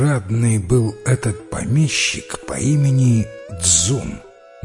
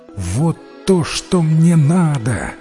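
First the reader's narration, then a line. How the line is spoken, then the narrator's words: Sleepy exclamation. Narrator (Russian): воскликнул богач спросонья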